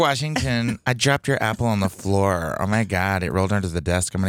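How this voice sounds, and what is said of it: Usual voice. Nothing is said of it.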